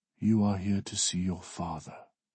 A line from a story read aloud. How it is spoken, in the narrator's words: she says, her voice soft